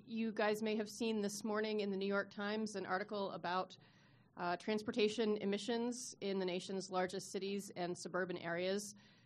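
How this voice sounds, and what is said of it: Congested head-cold voice. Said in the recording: “You can probably hear from my voice... definitely have a head cold thing going on.”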